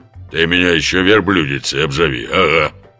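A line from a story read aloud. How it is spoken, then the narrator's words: Sudden deep bark. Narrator (Russian): Неожиданным басом рявкнула самаркандка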